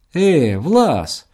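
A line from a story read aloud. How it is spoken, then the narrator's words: Cried out. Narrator (Russian): вскрикнул Туман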